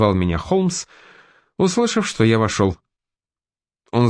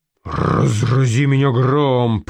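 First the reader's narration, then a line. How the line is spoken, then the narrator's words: Surprised growl. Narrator (Russian): прорычал он, увидев, кто стоит рядом со мной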